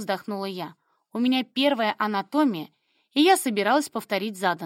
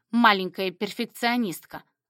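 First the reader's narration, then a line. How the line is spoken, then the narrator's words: Snorting remark. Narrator (Russian): хмыкнул он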